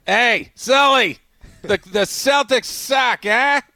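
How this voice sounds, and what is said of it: Put-on Boston accent. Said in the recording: “Boston accent”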